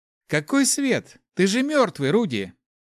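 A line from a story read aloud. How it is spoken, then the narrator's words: Guffawing. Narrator (Russian): захохотал Гош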